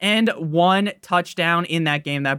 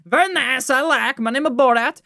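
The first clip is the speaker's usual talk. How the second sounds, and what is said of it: Weak Borat impression. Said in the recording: “That Borat impression was very, very weak.”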